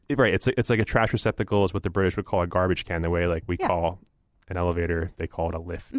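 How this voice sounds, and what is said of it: Usual voice. Nothing is said of it.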